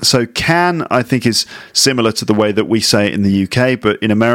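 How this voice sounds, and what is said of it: Usual voice. Nothing is said of it.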